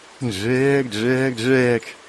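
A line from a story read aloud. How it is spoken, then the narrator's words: Muttering. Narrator (Russian): забормотала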